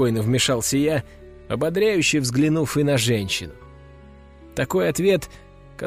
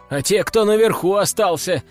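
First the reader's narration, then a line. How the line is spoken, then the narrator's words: Shout from crowd. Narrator (Russian): выкрикнул кто-то из толпы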